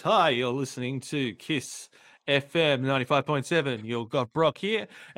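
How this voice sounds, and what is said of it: Radio DJ announcer voice. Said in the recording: “I can put on a radio voice.”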